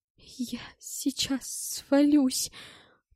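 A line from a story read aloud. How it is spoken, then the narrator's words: Tearful voice. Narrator (Russian): плачущим голосом произнес он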